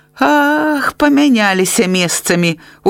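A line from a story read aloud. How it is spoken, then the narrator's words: Smiling. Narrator (Belarusian): усміхнувся Степан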